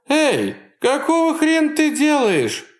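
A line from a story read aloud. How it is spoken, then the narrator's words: Shouting. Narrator (Russian): кричала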